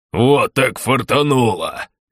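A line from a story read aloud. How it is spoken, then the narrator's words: Growling. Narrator (Russian): рычал кто-то из танков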